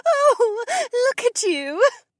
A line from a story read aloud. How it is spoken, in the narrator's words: Shay giggled